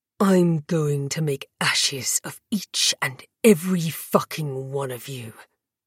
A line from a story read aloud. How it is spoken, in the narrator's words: he hissed